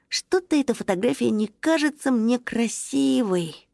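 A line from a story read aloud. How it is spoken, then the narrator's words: Disappointed sigh. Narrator (Russian): Тоша разочарованно вздохнул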